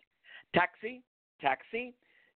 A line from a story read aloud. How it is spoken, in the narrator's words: Geoffrey yelled